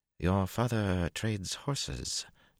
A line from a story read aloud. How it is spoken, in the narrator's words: Tuon murmured